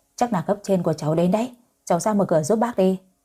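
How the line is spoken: Smiling, friendly. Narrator (Vietnamese): Bác Hoàn mỉm cười nói với tôi

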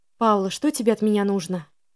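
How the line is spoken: Tired question. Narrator (Russian): Устало спросила я

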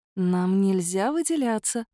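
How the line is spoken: Gentle reminder. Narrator (Russian): ласково напомнила я

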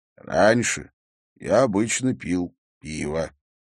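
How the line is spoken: Plain. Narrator (Russian): сказал Харри

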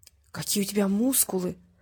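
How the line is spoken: Whisper. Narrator (Russian): прошептала Алинка

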